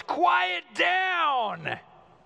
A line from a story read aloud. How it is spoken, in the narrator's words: Jesus shouts